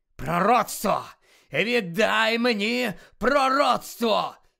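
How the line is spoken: Growl into ear. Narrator (Ukrainian): загарчав йому на вухо Луціус Мелфой

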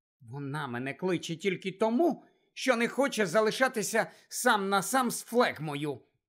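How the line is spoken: Angry grumble. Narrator (Ukrainian): сердито буркнула Джинні

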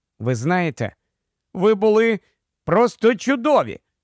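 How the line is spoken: Barely restrained delighted exclamation. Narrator (Ukrainian): вигукнула вона, ледь стримуючи захоплення

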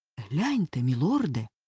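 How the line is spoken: Frightened whisper. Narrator (Ukrainian): злякано прошепотів

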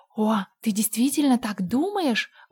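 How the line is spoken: Joyful exclamation. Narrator (Russian): воскликнула Энн, вспыхивая от радости

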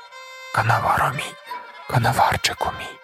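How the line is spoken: Whisper. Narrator (Ukrainian): Умарені шепотіла вона

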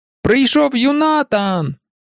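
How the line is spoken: Big man's overpowering shout. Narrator (Ukrainian): господар заїзду, великий чоловік, крикнув так, що перекричав усіх

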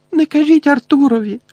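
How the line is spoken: Sobbing. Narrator (Ukrainian): схлипувала місіс Візлі

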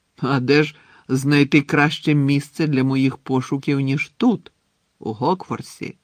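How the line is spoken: Plain. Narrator (Ukrainian): запитав Волдеморт

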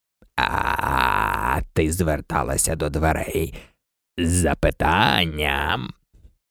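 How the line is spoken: Hoarse frog voice. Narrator (Ukrainian): У жаби був такий хрипкий голос, що Аліса ледве розбирала слова

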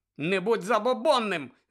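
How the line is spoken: Frustrated woman's shout. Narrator (Ukrainian): закричала Дженіс, розуміючи, що весілля знову віддаляється

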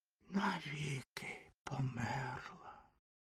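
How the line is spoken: Whisper. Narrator (Ukrainian): прошепотів вогняний фонтан

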